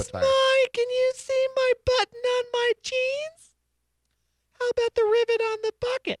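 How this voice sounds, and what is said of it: Imitating a flirty pinup girl. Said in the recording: “my pinup imitation”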